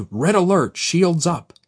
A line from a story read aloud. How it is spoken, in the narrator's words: He cried